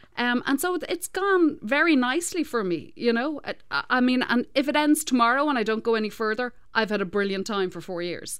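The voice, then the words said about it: Foreign accent, novel in Canada. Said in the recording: “having this accent it's a novelty over here”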